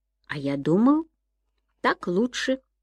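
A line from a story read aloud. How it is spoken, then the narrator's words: Calm reply. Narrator (Russian): спокойно ответил Сэм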